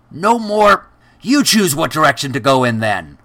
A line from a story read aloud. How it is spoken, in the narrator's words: Groen shouted